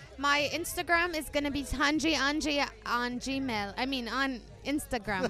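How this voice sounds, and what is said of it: Put-on British accent. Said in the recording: “I was trying to talk with the British accent so I could switch it up a little bit”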